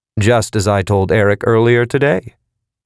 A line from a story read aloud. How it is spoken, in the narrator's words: Jonas said